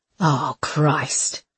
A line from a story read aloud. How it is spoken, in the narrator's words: breathed Brickell